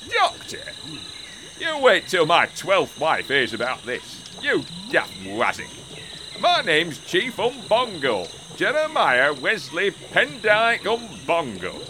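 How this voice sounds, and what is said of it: Put-on Yorkshire accent. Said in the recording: “you have a Yorkshire accent.”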